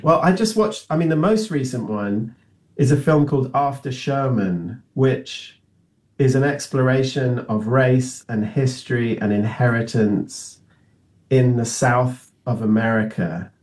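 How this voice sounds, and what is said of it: Non-American accent. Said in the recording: “I now live in the United States, as you can tell from my accent, I wasn't born here.”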